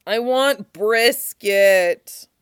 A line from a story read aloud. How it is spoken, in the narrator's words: moans